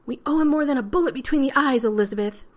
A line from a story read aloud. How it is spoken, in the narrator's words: Rodney shouted